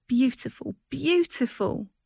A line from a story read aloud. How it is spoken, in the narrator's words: she cried